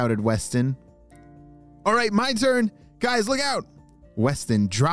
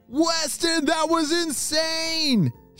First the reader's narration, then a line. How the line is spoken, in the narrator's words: shouted his friends